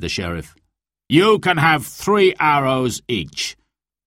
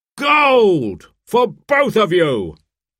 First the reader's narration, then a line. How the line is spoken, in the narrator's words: cried the sheriff